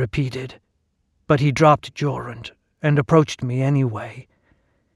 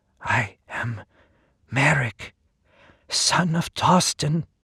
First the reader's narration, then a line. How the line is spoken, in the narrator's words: my voice trembled